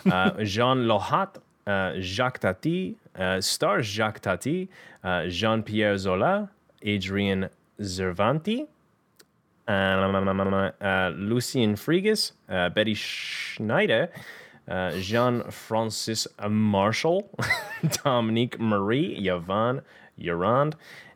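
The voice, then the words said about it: French names in exaggerated American accent. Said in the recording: “I'm going to just say these French names in the most American accent.”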